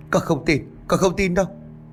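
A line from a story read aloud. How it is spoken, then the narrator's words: Distraught repeated crying. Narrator (Vietnamese): miệng vẫn không ngừng kêu lên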